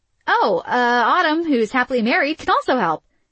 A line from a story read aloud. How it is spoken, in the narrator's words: Isabel said in a loud voice